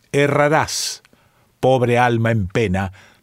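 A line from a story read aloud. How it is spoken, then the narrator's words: Plain reply. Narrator (Spanish): respondió la voz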